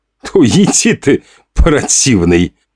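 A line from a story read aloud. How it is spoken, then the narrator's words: Nasty mocking put-on voice. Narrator (Russian): Сделал он мерзкий гмосячий голос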